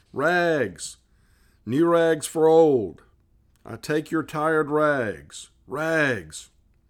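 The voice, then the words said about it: Clear tenor calling voice. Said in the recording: “he was calling in a clear tenor voice”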